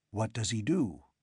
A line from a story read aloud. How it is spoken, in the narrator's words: his voice hardly more than a breath